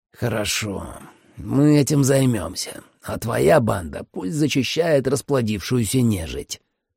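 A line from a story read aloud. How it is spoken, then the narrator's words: Through gritted teeth. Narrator (Russian): процедил Майерс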